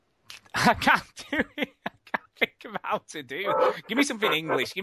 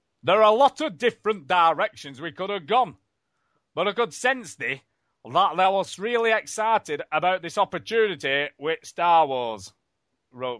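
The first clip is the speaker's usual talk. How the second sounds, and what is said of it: Put-on Yorkshire accent. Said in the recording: “Give me something English. I'm better at English. ... Yorkshire ... Yorkshire, here we go.”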